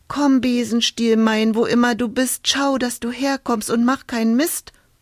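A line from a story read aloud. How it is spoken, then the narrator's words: Call out. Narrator (German): rief sie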